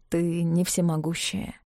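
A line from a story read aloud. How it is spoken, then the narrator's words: Quiet. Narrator (Russian): сказал он тихо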